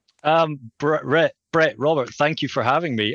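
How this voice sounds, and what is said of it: Scottish accent. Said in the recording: “if you can tell from my accent, I'm from Scotland”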